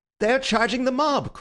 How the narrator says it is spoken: cried Bull, in ecstasy or alarm

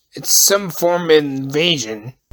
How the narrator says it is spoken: Cardio muttered

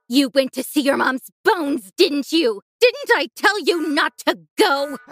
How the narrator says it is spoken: she screamed

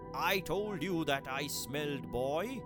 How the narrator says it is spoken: He bellowed to his wife as he raced

